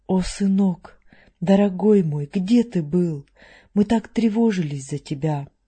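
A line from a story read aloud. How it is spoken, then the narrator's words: Exclaimed. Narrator (Russian): воскликнув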